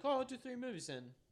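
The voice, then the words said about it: Imitates another person's voice, put-on accent. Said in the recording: “I like your accent. When you do your Peter Jackson impersonation.”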